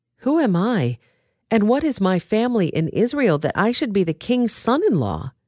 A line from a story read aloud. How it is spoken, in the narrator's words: David exclaimed